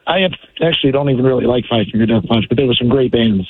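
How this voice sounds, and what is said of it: Worn-out, strained voice. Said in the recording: “Sorry about my voice.”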